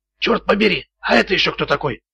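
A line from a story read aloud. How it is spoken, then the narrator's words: Whisper. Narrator (Russian): прошептал Макград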